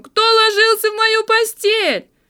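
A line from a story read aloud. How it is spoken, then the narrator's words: Terrified shrill squeal. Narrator (Russian): он завизжал так, как будто его режут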